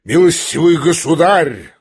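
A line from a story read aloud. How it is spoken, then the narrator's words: Thunderous shout. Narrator (Russian): закричал он громовым голосом Птицыну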